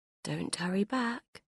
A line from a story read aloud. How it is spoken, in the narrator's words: whispered